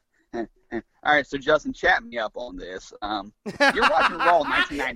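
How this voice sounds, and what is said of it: Imitates another person's voice. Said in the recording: “That is an amazing impression of Conrad.”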